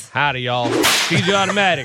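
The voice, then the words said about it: Weird cowboy accent. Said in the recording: “is talking with a weird cowboy accent”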